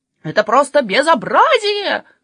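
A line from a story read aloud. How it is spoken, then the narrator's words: Butcher's exclamation. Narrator (Russian): воскликнул мясник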